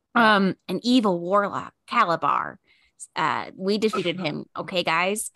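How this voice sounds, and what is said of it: Put-on Midwestern American accent. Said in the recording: “I'm giving her a Midwest Midwestern accent.”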